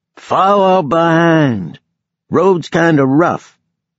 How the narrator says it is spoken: yelled

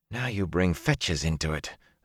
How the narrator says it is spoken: Zareen muttered

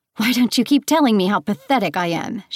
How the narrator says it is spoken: She spat

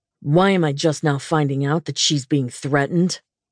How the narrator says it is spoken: He snarled into the phone

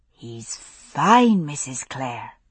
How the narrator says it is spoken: she whispered

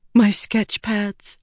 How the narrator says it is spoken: she whispered

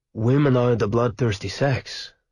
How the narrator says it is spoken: said Rick sadly

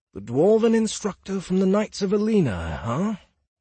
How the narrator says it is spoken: He muttered

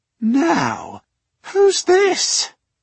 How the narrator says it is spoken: he inquired, his voice rising an octave or so

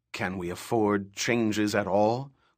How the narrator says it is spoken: grumbled one Honored Matre

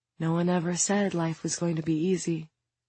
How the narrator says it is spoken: her own mother whisper

